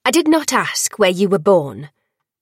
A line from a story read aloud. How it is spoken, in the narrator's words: the Failing snapped